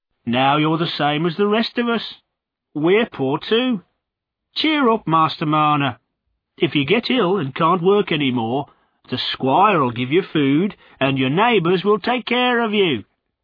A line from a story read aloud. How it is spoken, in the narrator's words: saying cheerfully